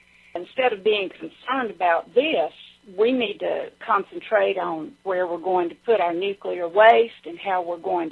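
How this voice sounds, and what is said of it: Pleasant, calming Southern accent. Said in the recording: “a pleasant and calming voice ... my Southern accent”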